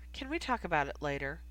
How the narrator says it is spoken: she asked, and though her tone was still light, it was quite firm

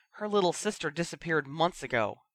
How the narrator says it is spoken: Bill said hotly, baring his teeth like a guard dog

